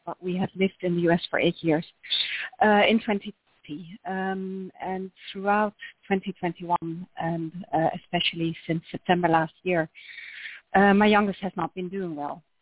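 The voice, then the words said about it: Dutch accent. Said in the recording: “you can tell by my accent that we're Dutch”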